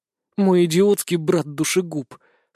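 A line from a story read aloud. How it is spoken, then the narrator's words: Through gritted teeth. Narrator (Russian): сквозь зубы процедила Лина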